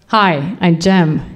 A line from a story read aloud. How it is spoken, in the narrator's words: he says